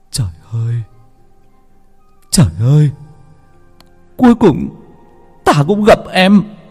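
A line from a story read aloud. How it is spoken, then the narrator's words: Crying. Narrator (Vietnamese): Người ăn mày cũng khóc lóc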